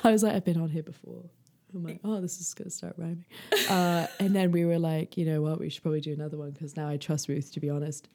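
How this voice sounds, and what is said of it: Speaks with a noticeable accent. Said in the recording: “that almost rhymed because of my accent. ... I love your accent.”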